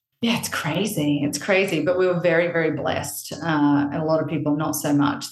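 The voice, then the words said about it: Australian accent. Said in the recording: “you will tell from my accent ... I'm actually Australian ... the twang”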